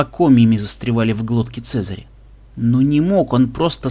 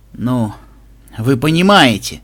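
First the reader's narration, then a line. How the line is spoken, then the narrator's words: Bitter mumble. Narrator (Russian): с горечью буркнул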